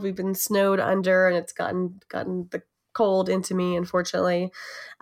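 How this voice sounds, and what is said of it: Voice with a cold. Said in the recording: “I have a bit of a cold.”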